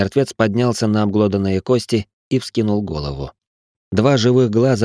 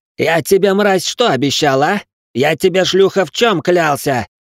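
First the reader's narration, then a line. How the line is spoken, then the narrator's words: Furious yelling. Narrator (Russian): орал Ричард на труп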